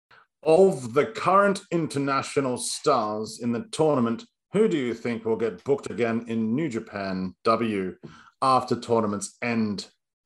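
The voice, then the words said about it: Put-on character voice with accent. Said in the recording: “ask the question perhaps in a voice... Limit the accent... this is what I'm going to imagine your voice sounds like”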